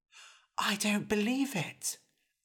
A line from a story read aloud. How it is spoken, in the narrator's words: Eric whispered back